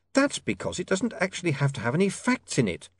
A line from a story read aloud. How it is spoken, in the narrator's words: snapped